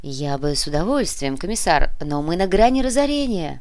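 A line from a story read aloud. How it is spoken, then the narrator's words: Bitter sigh. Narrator (Russian): горько вздохнул Кортес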